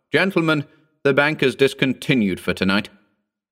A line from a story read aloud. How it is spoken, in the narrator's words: the croupier called out